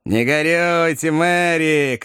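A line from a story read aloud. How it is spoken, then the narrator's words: Shouted. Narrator (Russian): крикнул одноглазый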